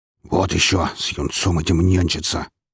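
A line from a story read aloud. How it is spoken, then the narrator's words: Grumbling. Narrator (Russian): проворчал он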